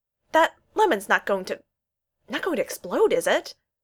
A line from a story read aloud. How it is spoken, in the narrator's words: McKay asked anxiously